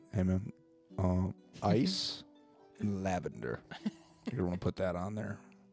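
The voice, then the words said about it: Whispering. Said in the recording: “whisper”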